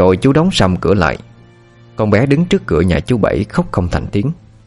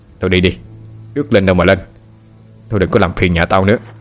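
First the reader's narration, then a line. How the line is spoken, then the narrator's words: Shouted. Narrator (Vietnamese): Chú quát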